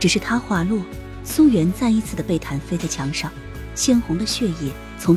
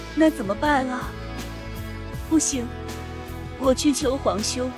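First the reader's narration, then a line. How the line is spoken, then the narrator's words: Crying. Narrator (Chinese): 他哭泣道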